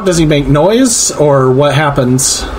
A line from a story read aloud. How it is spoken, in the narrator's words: He shouts